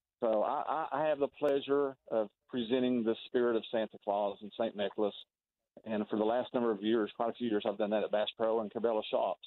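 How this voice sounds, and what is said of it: Thick Southern accent. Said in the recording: “Santa has a thick Southern accent”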